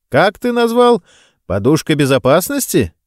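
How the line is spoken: Cheerful surprise. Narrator (Russian): весело удивился собеседник

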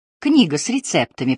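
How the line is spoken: Surprisingly calm. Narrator (Russian): произнесла Лора на удивление спокойно

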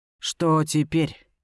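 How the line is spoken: Weary question. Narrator (Russian): устало уточняет Вентрис

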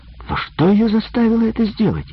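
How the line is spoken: Whining. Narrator (Russian): скулил Джимми

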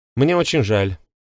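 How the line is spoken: Said very sharply. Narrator (Russian): проговорила Валери так резко, что он вздрогнул

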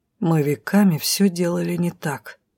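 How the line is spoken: Gloomy. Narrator (Russian): мрачно закончила мою мысль Леран

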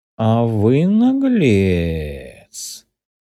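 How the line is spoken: Drawling, intrigued. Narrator (Russian): С интересом, протянул хозяин

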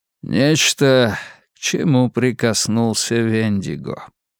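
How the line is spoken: Flat expressionless voice. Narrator (Russian): произнес Джад невыразительным голосом

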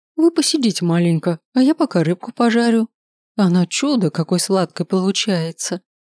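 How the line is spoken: Cooing. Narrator (Russian): Проворковала женщина

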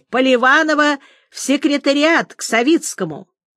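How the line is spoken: Shouted in passing. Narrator (Russian): кто-то на ходу крикнул

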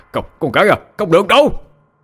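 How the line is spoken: Shouting old man. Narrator (Vietnamese): Ông bối gào lên

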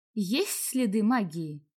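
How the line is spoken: Plain question. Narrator (Russian): спросила я

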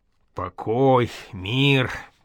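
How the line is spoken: Drawled. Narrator (Russian): протянул боярский сын обжига Кривулин

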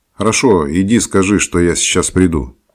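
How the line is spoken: Shout. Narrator (Russian): крикнул я

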